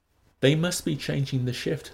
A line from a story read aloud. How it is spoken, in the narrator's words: said Lenina